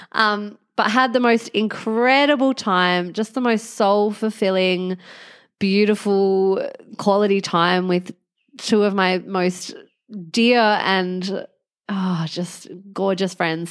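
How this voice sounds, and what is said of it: Congested, sniffly head-cold voice. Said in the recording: “you can probably tell from my voice that I've picked some sort of head cold up on the plane ... It's just super annoying to be so sniffly.”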